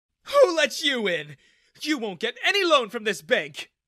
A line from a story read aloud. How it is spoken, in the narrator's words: shrieked